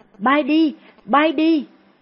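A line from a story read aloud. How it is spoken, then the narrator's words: Panicked shout. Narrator (Vietnamese): Cô hốt hoảng hét lên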